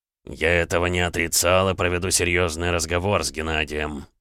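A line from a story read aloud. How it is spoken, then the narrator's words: Through clenched teeth. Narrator (Russian): процедил граф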